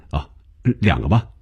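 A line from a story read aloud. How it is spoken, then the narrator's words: Laughing, hurried, sheepish. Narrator (Chinese): 红军一下子笑了，原来是自己想歪了，忙笑着说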